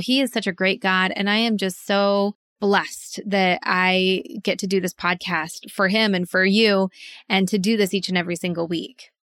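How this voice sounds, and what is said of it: Excited, pumped-up energetic voice. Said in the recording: “I don't know if you can hear it in my voice, but I am just so pumped up”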